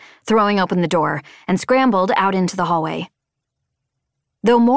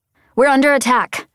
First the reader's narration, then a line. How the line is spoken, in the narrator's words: shouted